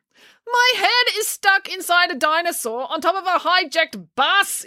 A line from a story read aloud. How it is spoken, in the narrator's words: yelled Finn